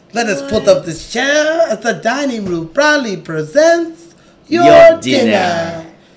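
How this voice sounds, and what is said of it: Lumiere impression, French accent. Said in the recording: “he is Lumiere ... The only person with a French accent in the whole movie.”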